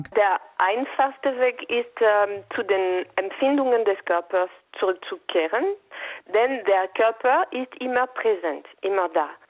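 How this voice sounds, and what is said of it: Foreign accent in German. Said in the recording (German): “Das ist ein wunderbaren Akzent. Macht Spaß, dir zuzuhören.”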